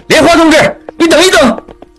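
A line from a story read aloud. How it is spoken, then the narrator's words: Shouting. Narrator (Chinese): 一边喊着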